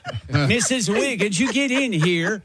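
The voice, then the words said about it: Put-on Swedish accent. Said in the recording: “That's Swedish.”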